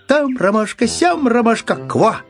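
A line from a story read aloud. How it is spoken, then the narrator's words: Joyful shouting. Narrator (Russian): радостно крича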